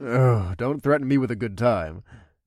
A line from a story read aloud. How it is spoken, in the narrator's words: I chuckled